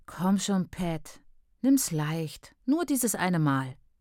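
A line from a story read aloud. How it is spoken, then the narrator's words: Lazy, pleased purr. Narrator (German): Mit großem Vergnügen an ihrer Trägheit schnurrte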